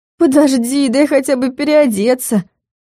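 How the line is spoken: Weary moan. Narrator (Russian): простонала, всем своим видом демонстрируя усталость

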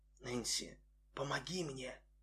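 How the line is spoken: Trembling whisper. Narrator (Russian): Сине-фиолетовые губы дрогнули, прошептав

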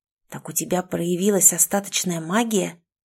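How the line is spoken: Hissing. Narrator (Russian): зашипел Ричард

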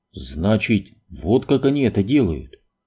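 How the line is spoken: Whisper. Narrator (Russian): прошептал Крейн

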